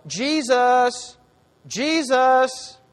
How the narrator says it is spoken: they would call him to dinner, they didn't yell

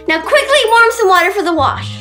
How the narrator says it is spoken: snapped the mother

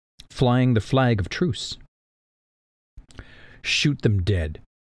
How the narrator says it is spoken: Dalinar said calmly

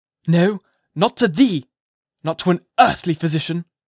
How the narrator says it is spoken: cried Mr

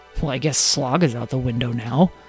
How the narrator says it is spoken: Lyle muttered under his breath

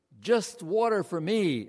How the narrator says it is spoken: I blurted out

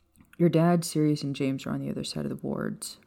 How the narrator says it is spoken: Remus said in a calm voice

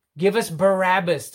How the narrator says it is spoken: the crowd shouts

